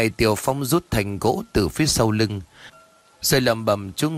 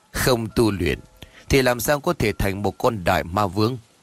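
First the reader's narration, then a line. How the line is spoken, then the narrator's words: Deep booming laughing voice. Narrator (Vietnamese): Ông Ba ngước mặt lên trời cười lớn, giọng ồm ồm phát ra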